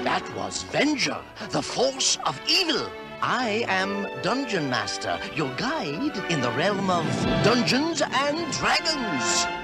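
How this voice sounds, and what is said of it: Put-on Dungeon Master character voice. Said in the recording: “I don't know why I did that voice.”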